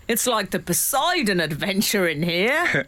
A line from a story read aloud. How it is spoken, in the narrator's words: Dad shouting to Mum